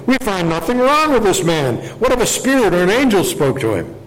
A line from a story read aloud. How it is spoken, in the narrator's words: a great clamor arose, and some of the scribes of the Pharisees' party stood up and contended sharply